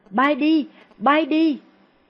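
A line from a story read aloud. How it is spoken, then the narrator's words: Panicked scream. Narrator (Vietnamese): Cô hốt hoảng hét lên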